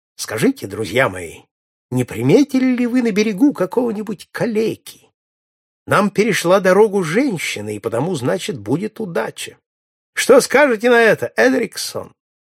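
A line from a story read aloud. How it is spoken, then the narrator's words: Cheerful. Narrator (Russian): весело сказал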